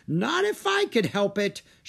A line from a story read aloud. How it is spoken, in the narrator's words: she cried